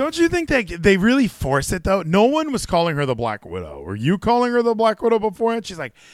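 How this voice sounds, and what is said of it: Usual voice. Nothing is said of it.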